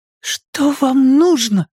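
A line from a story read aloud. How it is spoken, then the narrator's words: Trembling, contemptuous question. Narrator (Russian): спросила Алисия, попытавшись выразить дрожащим голосом все презрение, на какое была способна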